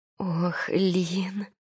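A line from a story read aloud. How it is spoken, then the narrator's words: Moaning. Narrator (Russian): простонала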